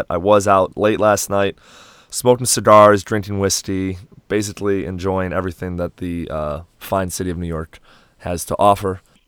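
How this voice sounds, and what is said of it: Voice slightly rough, not full strength. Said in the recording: “my voice isn't 100% yet”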